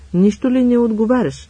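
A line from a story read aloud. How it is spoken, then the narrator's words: Exclamation. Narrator (Bulgarian): възкликна той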